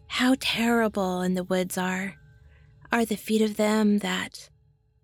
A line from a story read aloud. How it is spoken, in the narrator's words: Simpson would moan